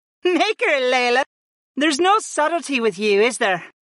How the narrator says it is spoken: Aaron laughed at the brunette mage

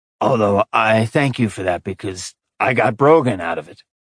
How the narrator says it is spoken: Blaze murmured

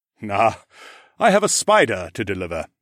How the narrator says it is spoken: Aaron chuckled

